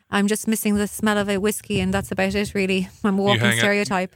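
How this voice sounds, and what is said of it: Irish accent. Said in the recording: “I'm from Ireland. ... my accent”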